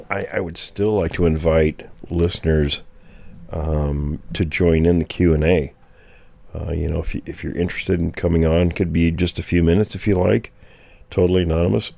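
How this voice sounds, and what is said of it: Hoarse, failing voice. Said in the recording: “losing my voice ... I'm still losing my voice”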